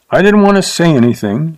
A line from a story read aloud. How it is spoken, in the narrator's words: she said sharply